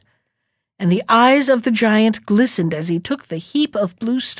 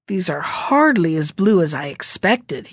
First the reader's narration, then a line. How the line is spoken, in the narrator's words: he grumbled